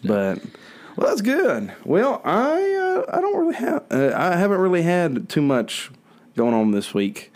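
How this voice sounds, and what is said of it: Congested, under-the-weather voice. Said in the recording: “my voice is a little weird. I am feeling a little under the weather ... My sinuses”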